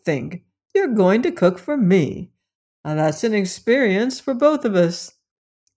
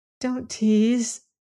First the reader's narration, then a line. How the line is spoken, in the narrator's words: she begged uncertainly